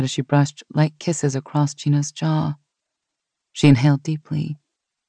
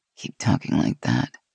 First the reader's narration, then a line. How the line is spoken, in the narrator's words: Gina said with a soft groan